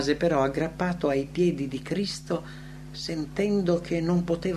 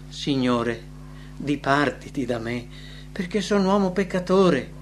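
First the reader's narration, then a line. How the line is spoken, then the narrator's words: Exclaimed. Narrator (Italian): Pietro esclamò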